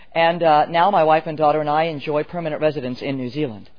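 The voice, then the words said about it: American accent. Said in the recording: “my accent betrays my origin as an American”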